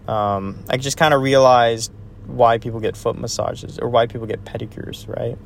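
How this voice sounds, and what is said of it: Tired, exhausted-sounding voice. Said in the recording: “I'm pretty exhausted. I'm sure you can tell from my voice I'm pretty exhausted”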